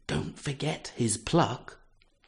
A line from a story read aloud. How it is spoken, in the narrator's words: whispered